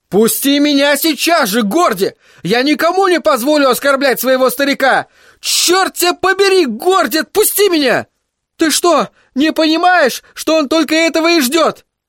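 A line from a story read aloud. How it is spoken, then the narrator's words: Shouting into ear. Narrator (Russian): Кричал я ему в ухо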